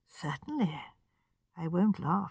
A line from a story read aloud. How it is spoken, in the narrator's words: he said gently